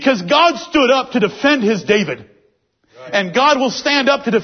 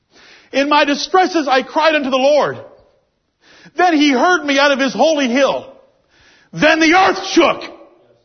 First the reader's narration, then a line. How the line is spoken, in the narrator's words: David cried unto the Lord